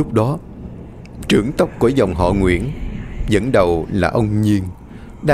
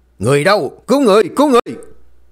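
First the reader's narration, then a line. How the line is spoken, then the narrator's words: Screamed. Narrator (Vietnamese): Tiếng thét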